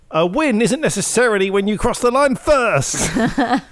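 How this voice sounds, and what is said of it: Impression of Jack. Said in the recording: “That was my Jack impression. ... I thought it was Will Buxton.”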